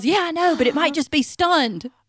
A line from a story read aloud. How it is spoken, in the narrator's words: he yells